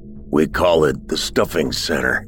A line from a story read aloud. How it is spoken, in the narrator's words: the grunter said in a hoarse voice